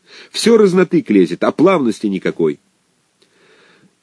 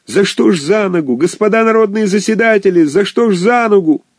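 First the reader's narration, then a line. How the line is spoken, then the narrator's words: Wild frantic shouting. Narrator (Russian): Актер кричал диким голосом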